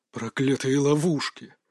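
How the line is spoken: Grumbling. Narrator (Russian): проворчал Джамал

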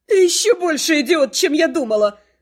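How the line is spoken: Howled. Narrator (Russian): Взвыла Кривона

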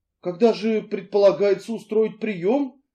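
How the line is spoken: Timid question. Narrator (Russian): робко осведомилась миссис Ривз

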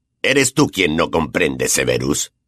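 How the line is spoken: Growled. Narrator (Spanish): gruñó Black

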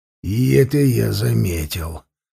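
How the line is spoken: Cold smirking tone. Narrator (Russian): холодно усмехнулся Ширам

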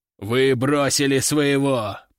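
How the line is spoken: Growled. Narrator (Russian): прорычал Буйвол

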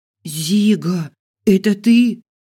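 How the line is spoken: Hoarse, shocked. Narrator (Russian): прохрипела от шока я

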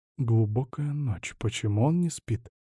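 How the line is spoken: Quiet, to himself. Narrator (Russian): тихо спросил сам себя Ланс

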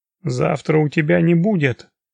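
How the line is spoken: Through gritted teeth. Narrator (Russian): процедил Илья Борисович сквозь зубы

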